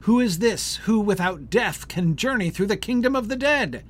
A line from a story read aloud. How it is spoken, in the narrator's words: more than 1,000 who once had reigned from heaven, and they cried in anger